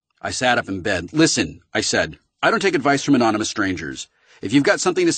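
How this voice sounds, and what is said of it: Usual voice. Nothing is said of it.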